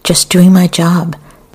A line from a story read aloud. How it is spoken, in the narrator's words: Another man cried